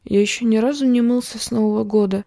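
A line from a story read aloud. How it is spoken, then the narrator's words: Quiet reply. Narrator (Russian): тихо ответил Ван Лун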